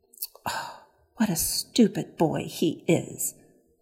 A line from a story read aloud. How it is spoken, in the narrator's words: muttered Pandora